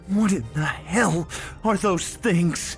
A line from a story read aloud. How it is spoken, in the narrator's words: I shouted to her